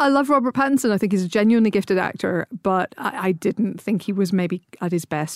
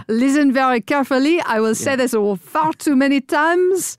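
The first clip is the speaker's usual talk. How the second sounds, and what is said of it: Exaggerated put-on French accent. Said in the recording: “Robert Pattinson's French accent”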